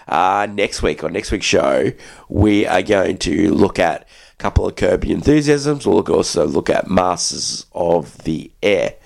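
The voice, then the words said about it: Sick, congested-sounding voice. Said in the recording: “Sorry for my voice. I've still got this cold.”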